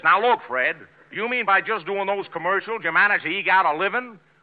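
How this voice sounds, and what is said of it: Bad imitation of another person's voice. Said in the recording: “such a bad imitation of Benny”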